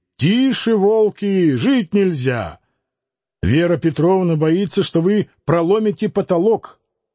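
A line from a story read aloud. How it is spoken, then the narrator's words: Father shouting. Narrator (Russian): Воровка-отец и кричал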